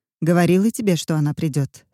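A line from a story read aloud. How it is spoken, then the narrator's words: Plain. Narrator (Russian): сказала Клариса Дженнифер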